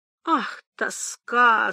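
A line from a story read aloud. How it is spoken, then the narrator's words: Helpless moaning. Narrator (Russian): стонал он в бессилии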